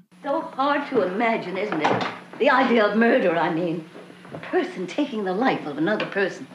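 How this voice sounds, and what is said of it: Really bad put-on accent. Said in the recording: “accent is really, really bad.”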